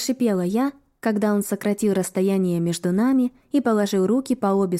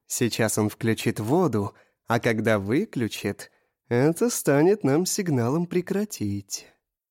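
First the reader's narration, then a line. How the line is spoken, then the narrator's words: Purred. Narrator (Russian): промурлыкал он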